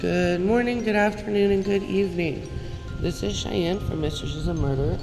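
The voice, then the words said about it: Sick, congested-sounding voice. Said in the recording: “I am sick, if you can't hear that in my voice”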